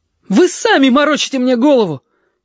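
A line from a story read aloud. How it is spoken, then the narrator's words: Desperate defiant shout. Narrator (Russian): Ежики крикнул это с дерзостью отчаяния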